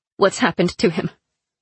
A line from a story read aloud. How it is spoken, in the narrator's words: Zoya asked grimly